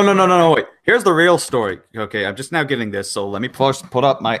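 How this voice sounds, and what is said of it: Usual voice. Nothing is said of it.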